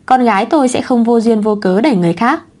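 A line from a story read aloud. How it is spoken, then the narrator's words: Cold speech. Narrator (Vietnamese): Quý Huyền lạnh lùng nói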